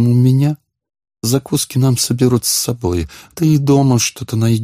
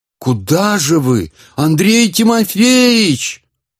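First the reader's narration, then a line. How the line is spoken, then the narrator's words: Shouted from behind. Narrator (Russian): крикнул ему вслед отставший Модест Ильич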